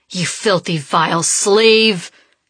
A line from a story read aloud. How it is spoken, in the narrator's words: He bellows